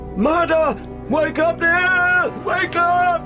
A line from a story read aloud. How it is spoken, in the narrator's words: With the dreadful conviction of what he had seen still strong within him, screaming